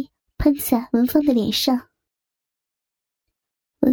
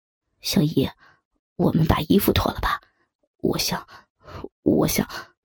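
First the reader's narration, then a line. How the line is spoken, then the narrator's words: Nervous, breathless, soft. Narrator (Chinese): 杨峰似乎是太紧张，喘息了一阵，才轻轻地说道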